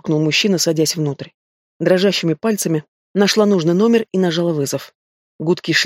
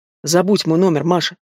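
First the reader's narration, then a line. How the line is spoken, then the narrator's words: Rude, curt young man. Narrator (Russian): Грубо оборвал меня парень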